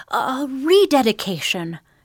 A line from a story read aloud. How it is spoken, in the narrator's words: she exclaimed